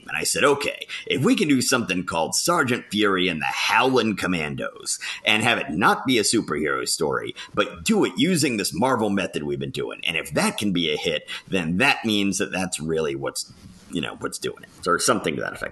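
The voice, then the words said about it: Poor imitation of another person's voice. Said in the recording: “my terrible Stan Lee impression ... my Stan Lee impression, or yes, that it's terrible”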